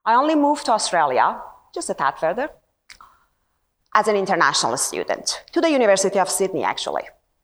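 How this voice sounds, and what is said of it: Persian accent. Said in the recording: “I don't have the usual Aussie accent ... The accent that you're hearing is Persian accent.”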